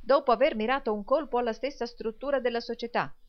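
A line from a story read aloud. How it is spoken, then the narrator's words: Exclaimed. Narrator (Italian): esclamò il signor Lillywick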